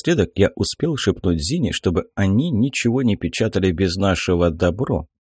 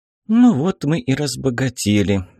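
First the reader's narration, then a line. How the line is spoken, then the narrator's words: Sad, jolted voice. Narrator (Russian): грустно сказала, подпрыгивая на ухабах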